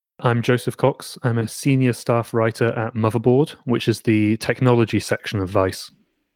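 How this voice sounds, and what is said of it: English accent. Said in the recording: “that guy's English accent is much better.”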